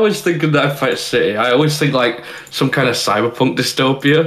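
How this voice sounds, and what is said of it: Usual voice. Nothing is said of it.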